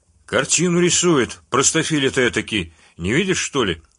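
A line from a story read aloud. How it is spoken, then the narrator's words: Authoritative blacksmith. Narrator (Russian): авторитетным тоном сообщил кузнец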